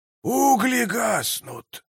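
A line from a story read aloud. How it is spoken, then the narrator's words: Muttering. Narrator (Russian): пробормотал он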